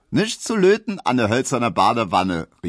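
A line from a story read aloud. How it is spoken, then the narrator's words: Calling out. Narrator (German): rief Emma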